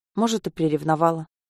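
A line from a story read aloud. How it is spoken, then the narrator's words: Barely audible. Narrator (Russian): Еле слышно отзывается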